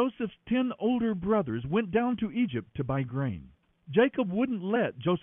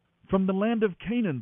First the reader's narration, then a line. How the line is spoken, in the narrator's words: they replied